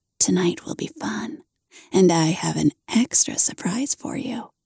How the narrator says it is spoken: whispers in my ear

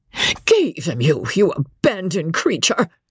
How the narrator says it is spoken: screamed Mrs

